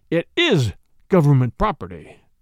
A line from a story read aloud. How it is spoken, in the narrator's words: answered hotly